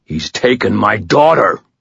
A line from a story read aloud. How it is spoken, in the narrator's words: Michael roared, his voice shaking the walls